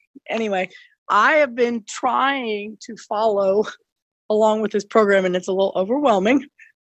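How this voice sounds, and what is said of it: Congested voice from a cold. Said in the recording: “I have a cold, so I'm hard to hear”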